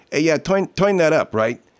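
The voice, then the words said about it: Imitated Brooklyn New York accent. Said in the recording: “In Brooklyn or in New York, they'd say ... Because they talk like this.”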